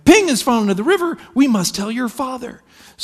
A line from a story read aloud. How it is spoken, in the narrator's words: And alarmed, his mother cried